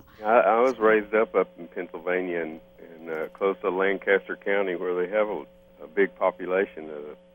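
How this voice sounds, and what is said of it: Texas accent. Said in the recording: “your Texas accent ... totally overtaken by the Texas accent”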